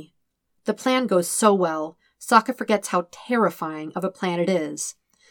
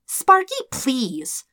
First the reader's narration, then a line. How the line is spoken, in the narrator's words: scoffs